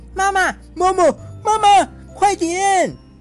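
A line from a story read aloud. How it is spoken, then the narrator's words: Children's ecstatic shout. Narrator (Chinese): 所有的孩子 欣喜若狂，连蹦带跳的大喊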